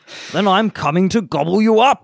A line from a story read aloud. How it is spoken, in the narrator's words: roared the troll